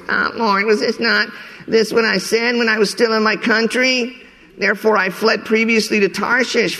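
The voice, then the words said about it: Whiny voice. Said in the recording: “put on my whiny voice.”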